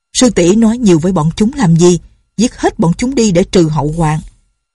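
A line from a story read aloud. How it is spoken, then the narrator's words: Angry. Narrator (Vietnamese): Định Vật sư thái tức giận nói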